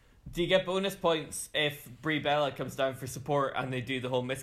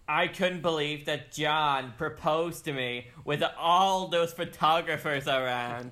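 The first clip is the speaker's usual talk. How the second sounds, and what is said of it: A pretty good impression. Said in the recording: “That was a pretty good impression”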